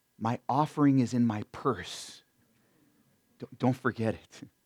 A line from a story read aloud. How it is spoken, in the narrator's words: this elderly mom whispers